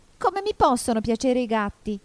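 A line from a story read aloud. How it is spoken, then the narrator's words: Shrill indignant question. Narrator (Italian): domandò il topo con voce stridula e sdegnata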